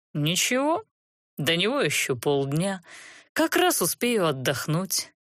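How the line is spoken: Purring. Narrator (Russian): промурлыкал бессовестный коллега

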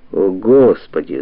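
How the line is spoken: Groaning heir. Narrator (Russian): застонал наследник

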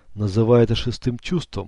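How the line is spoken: Gloomy, grim. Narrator (Russian): мрачно сказал он

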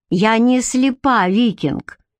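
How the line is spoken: Sarcastic remark. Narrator (Russian): ехидно заметила Бренна

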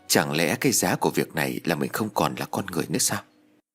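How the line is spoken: Muttered. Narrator (Vietnamese): Lâm lẩm bẩm nói

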